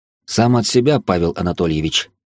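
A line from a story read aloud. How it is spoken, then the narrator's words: Snorted. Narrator (Russian): хмыкнул я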